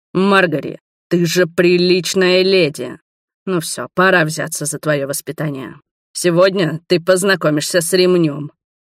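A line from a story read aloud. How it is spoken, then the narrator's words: Growl. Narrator (Russian): прорычал Роберт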